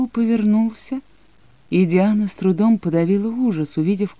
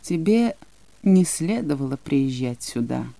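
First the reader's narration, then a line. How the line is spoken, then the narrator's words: Lifeless voice. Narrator (Russian): он безжизненным голосом произнес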